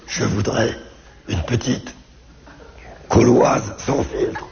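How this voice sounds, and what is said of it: Imitates raspy, damaged-throat voice. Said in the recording (French): “je peux vous imiter mon père qui a un cancer de la gorge ... c'est pas évident d'imiter l'accent cancéreux”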